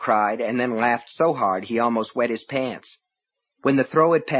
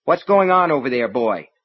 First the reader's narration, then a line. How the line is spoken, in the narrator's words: she asked sharply